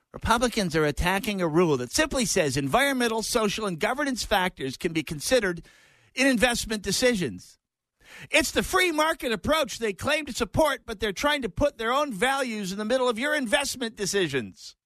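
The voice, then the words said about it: Impression of Tina Smith. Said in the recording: “my Tina Smith impression.”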